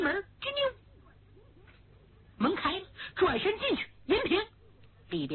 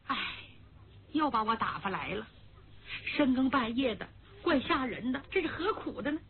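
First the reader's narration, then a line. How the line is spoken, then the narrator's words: Familiar maid's voice. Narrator (Chinese): 声音很熟，正是魏银平的心腹丫鬟狼儿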